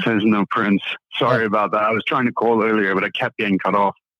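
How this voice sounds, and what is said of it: Mixed British and Southern accent. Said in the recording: “a British accent and a Southern accent mixed together ... sexy British voice”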